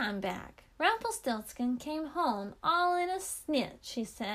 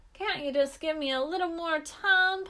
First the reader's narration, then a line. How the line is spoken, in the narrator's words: Pa pleaded